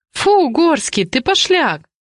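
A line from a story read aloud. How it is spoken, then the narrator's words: Forced giggle. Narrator (Russian): хихикает Дуся, но слишком наигранно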